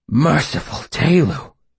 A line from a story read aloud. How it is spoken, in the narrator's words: said breathlessly